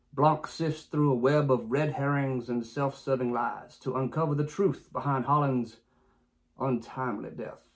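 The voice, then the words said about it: Put-on British accent. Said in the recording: “I had no idea you could speak with a British accent.”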